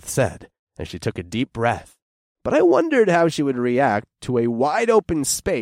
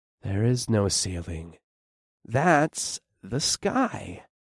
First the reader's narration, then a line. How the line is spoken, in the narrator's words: I said quietly